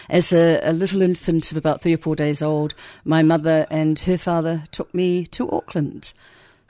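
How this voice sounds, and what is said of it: Educated New Zealand accent. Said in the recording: “a funny hybrid of an educated New Zealand accent ... there's a New Zealand accent there for sure”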